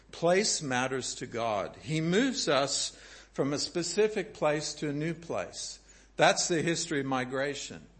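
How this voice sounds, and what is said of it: Somewhat mixed American accent. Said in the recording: “I have supposedly an American accent ... so mixed up a bit”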